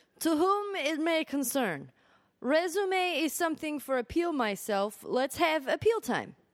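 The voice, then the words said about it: Put-on foreign accent. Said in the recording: “I don't know why I'm going to give him this accent”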